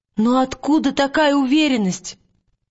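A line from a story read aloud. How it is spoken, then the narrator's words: Exclamation. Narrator (Russian): воскликнула Лира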